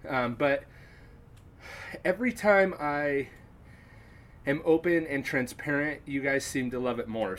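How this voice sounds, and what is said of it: Slightly out of breath. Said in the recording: “I'm trying to fit in a little exercise as I record this, so that's why I may seem out of breath.”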